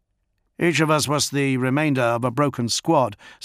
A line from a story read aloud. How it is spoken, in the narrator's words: said Theel